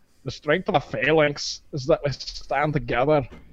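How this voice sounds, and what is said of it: Put-on Scottish accent. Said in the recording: “wait, are you Scottish? Don't pay attention to my accent.”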